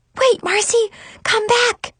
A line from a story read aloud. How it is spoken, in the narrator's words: I whisper shouted